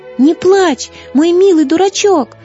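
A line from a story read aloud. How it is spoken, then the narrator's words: Shout. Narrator (Russian): крикнула Злата Васятке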